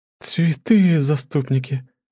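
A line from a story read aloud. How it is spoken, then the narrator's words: Stunned gasp. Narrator (Russian): Ошеломленно выдохнула Свейни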